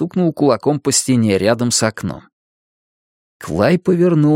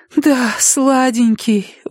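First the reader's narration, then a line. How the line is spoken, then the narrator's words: Breathy exhale. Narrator (Russian): выдохнула Дениз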